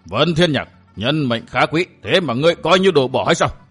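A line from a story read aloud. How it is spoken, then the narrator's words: Roaring. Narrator (Vietnamese): Hàng Ma Tăng gầm lên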